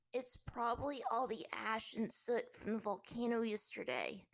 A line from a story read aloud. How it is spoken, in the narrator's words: Aang rasped